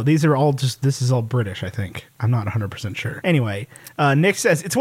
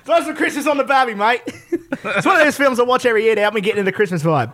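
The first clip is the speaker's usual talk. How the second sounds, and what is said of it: Put-on Australian accent. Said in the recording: “If he's from Australia, you have to do the accent.”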